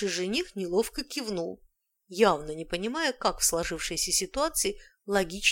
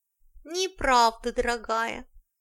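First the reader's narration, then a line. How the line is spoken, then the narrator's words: Matching nasal whine. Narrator (Russian): в тон прогнусавила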